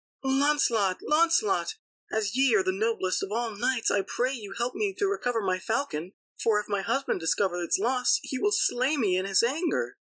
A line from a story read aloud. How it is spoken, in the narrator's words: a fair lady, who cried